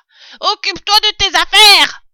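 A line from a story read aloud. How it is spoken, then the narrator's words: Rat yelling. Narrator (French): vociféra le rat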